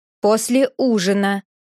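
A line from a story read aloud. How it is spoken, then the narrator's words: Stern tone. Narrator (Russian): строгим тоном сказала Нина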